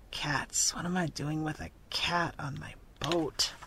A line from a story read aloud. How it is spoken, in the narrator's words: the red-bearded captain muttered and growled